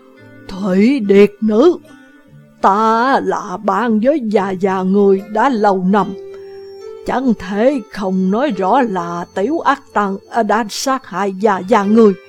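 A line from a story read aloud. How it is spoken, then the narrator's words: Hoarse old man's voice. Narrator (Vietnamese): thanh âm khàn khàn của một lão già cất lên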